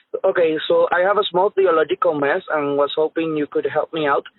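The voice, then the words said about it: Puerto Rican accented English. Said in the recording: “one of our listeners from Puerto Rico ... sorry for my accent, and I hope you understand me”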